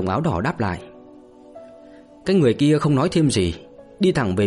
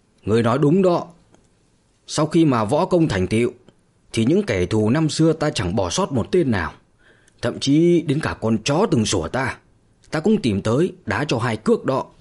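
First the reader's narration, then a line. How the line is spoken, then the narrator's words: Cold laugh, young man. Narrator (Vietnamese): một người thanh niên ... lạnh lùng mà cười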